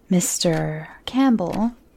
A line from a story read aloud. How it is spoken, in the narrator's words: he says slowly